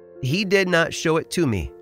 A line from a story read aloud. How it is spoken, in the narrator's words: replied